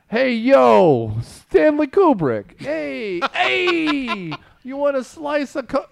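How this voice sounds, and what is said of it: Put-on Brooklyn accent. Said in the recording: “You need more of a Brooklyn accent.”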